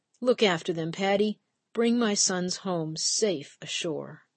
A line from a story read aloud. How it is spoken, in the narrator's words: she whispers